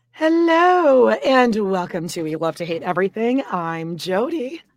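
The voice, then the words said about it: Hoarse, half-lost voice. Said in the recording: “my voice just... out about an hour ago... she loses her voice, but it's like sexy”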